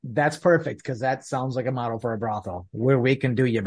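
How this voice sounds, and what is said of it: Usual voice. Nothing is said of it.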